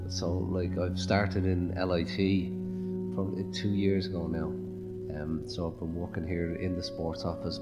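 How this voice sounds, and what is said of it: Dublin Irish accent. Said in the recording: “As you can probably tell from the accent, I'm not from Limerick. I was born in Dublin.”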